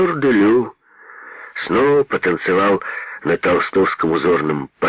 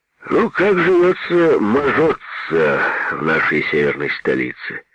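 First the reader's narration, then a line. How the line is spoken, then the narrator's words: Sleepy question. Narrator (Russian): сонно поинтересовался Петр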